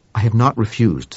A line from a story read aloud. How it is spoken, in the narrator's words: said Webster